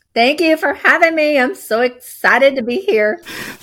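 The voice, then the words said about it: Texas accent. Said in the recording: “Texas accent”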